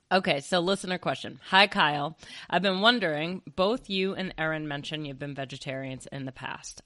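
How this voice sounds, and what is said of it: Deeper than usual, sick voice. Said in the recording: “I'm getting over a cold, so I'm just going to let people know if my voice is deeper than usual.”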